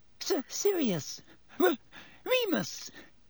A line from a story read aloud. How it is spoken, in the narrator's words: Even Pettigrew's voice was squeaky